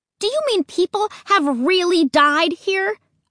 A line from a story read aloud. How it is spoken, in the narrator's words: shouted